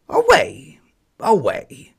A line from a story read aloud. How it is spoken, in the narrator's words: barked the hoarse yard dog